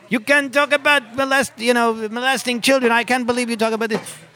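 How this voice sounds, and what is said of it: Attempted French-Canadian accent, screaming. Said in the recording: “some French-Canadian woman came out and started screaming at me ... That's not really a French-Canadian accent, but you get the idea.”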